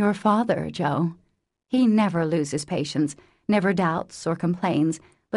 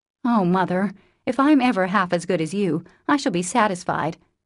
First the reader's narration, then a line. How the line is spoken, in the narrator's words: cried Jill, much touched